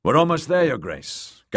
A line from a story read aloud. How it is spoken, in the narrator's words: Garin told Marcella cheerfully